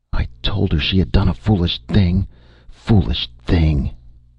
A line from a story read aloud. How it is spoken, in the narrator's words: exclaimed Mrs